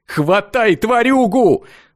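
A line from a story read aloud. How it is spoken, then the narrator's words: Loud yell. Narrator (Russian): заорал рыжий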